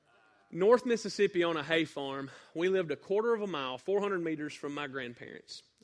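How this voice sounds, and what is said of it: Mild northeast Mississippi Southern accent. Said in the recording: “where I grew up was northeast Mississippi ... you can hear it in the accent a little bit, I'm guessing”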